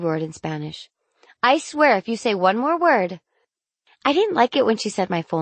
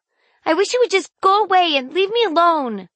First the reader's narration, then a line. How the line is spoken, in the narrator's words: I yelled, regretting it immediately